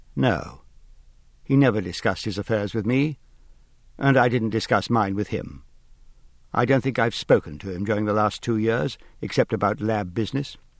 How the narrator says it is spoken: Angela Foley said calmly

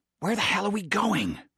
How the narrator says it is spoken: He hissed, like a prisoner of war afraid to offend his captors

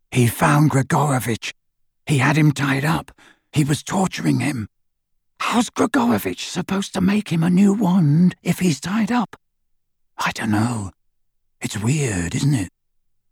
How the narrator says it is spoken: Harry whispered into the darkness

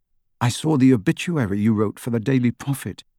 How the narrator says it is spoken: said Harry

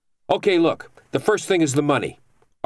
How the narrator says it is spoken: Argrow barked

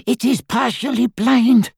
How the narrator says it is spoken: panted Griphook

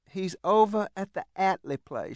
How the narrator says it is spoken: she said slowly

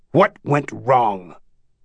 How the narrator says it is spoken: Trudeau slapped the table and barked

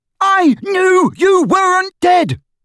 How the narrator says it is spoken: bellowed Ron, drowning her voice for the first time

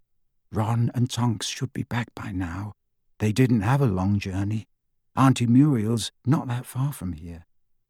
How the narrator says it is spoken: she said in a low voice

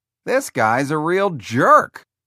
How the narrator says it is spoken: Tom Hanks exclaimed

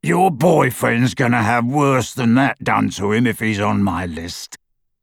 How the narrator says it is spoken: said the horribly familiar rasping voice

